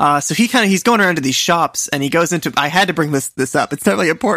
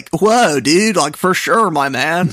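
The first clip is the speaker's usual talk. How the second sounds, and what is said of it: Put-on surfer accent. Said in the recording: “this crazy ... great surfer accent ... the surfer accent”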